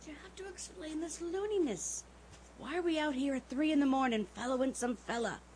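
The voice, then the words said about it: Whispered speech. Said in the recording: “See, I told you to whisper, didn't I now? ... All right, I'll whisper.”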